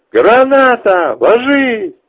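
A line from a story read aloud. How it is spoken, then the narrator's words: Shouted warning. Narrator (Russian): что-то прокричав второму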